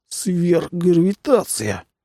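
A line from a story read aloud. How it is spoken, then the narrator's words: Strained, barely moving lips. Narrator (Russian): выдавил Жюль, едва шевеля губами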